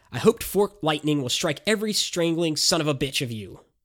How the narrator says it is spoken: Gallagher shouted

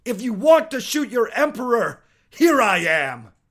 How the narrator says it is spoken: He screamed

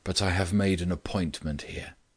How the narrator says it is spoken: said Basil calmly, out of the darkness

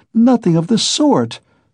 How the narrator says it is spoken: cried Donya in vexation

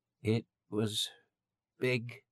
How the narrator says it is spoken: Jess said slowly

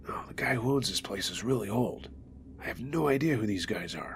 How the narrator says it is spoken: whispered back

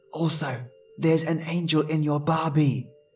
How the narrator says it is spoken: whisper

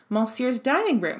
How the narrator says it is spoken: exclaimed the stupefied director

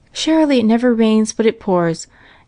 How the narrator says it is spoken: exclaimed Mrs

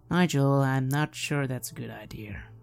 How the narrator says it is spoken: Miss Collins sighs a little and says

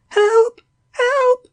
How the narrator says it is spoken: shrieks of a tortured being

